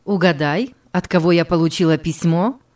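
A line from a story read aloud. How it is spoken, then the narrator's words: Plain. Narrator (Russian): спросила она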